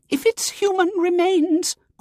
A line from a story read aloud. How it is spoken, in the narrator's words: quavered Miss Simpke